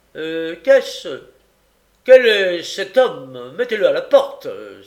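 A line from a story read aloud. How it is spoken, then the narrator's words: Exclaiming. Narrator (French): s'écria-t-il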